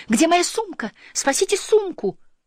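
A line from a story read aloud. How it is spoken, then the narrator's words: Shouting. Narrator (Russian): Она закричала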